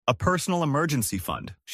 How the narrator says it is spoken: she said

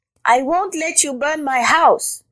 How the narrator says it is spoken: cried Rabbit

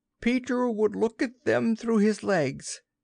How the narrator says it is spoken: Almost in the same breath they cried

